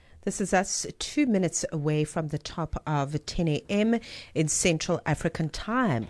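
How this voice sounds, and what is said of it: Calm, relaxed speaking voice. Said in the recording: “You can just hear the calm in my voice.”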